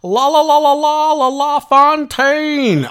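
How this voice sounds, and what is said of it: Rick Jenneret impression, hockey call. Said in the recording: “I'm going to do my best Rick Jenneret impression.”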